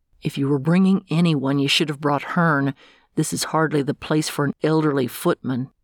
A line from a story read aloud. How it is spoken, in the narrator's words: He muttered